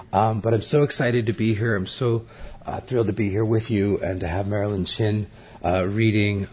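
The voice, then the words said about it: Hoarse, mostly lost voice. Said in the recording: “I've pardoned my voice... I've lost my voice over the last couple of days”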